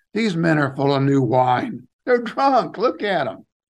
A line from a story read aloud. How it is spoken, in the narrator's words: Some were mocking and said